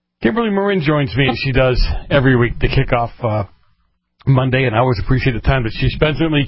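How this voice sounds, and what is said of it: Boston accent. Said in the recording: “I can't make fun of you from being from Boston, or for your accent”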